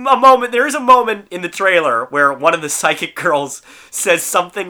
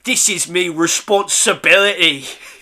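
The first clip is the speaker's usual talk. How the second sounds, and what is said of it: Heavy put-on Cockney accent. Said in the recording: “with like a really heavy Cockney accent.”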